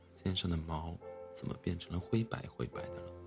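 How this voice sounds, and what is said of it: Quiet muttering whisper. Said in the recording (Chinese): “小声嘀咕”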